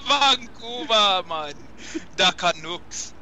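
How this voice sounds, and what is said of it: Put-on Jamaican accent. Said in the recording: “the Jamaican Canadian. The accent's amazing.”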